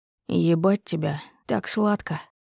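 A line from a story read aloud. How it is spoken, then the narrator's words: Hoarse, muffled into mouth. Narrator (Russian): Хриплю в рот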